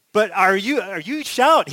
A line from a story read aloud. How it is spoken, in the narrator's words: He shouted